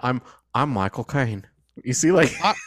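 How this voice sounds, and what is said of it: Michael Caine impression. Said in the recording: “the easiest way to do a Michael Caine impression. Yeah. You just say his name.”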